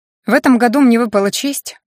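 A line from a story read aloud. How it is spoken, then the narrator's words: With a snort. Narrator (Russian): он хмыкнул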